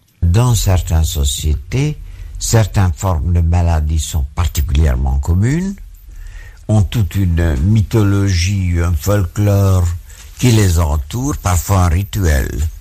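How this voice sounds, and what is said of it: Hungarian accent, slightly American and German. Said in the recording (French): “cet accent très spécial du fondateur de l'ethnopsychiatrie, Georges Devreux ... un accent un peu américain, un peu allemand et en réalité hongrois”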